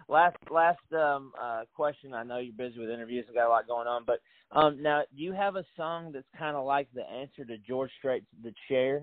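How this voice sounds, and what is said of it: Southern American accent, Middle Tennessee. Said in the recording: “obviously you can tell I'm hillbilly American ... I heard your accent. ... It's Middle Tennessee here, right between the Appalachians and you know, good old Music City”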